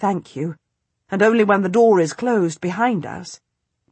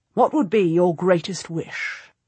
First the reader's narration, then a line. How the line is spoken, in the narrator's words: Woodville asks me